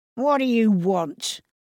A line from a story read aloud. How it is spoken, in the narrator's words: growled Ernest